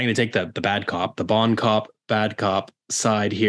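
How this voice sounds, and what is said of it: Usual voice. Nothing is said of it.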